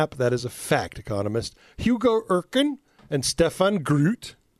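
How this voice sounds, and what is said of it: Put-on accent on Dutch names. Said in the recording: “Nice accent. ... Those are Dutch names if ever I heard them.”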